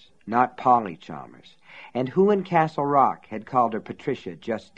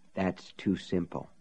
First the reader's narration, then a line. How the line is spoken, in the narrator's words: she whispered